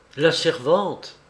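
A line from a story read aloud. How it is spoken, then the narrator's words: Exclaimed. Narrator (French): s'écria-t-il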